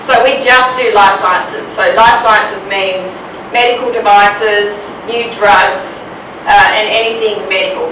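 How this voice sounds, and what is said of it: Australian accent, slight American hint. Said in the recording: “I have a little hint of American accent ... but I'm Australian”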